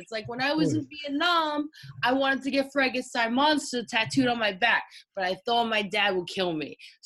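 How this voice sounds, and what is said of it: Jersey City accent impression. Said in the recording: “with a Jersey City accent”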